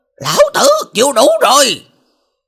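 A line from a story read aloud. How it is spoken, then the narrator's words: Frantic roaring. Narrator (Vietnamese): Hắn ta kích động liều mạng gầm thét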